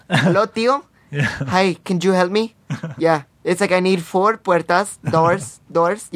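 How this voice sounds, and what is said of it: Bad put-on Hispanic accent. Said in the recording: “that's a horrible accent. My family doesn't speak like that.”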